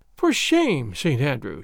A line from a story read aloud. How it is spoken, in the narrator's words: she said, shaking her head with a playful sigh